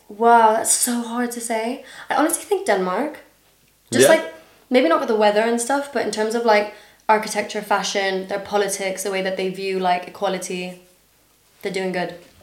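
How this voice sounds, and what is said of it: Slightly American international school accent. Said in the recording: “Kind of American, I guess. It's like it's just the international school, isn't it? ... I have an international school accent”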